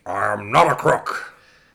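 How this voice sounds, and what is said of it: Richard Nixon impression. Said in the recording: “Can you do a Nixon impression? ... Far better than Mandela.”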